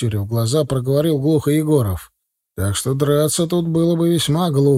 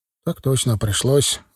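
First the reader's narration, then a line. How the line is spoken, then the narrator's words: Sigh. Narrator (Russian): вздохнул тот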